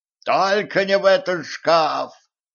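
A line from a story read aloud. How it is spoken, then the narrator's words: Desperate wail. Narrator (Russian): отчаянно завопил Кузьмич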